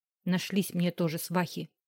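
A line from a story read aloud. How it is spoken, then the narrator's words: Grumbled for form's sake. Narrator (Russian): пробурчала больше для порядка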